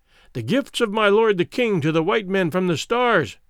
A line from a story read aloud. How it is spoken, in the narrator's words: exclaimed a herald who came with them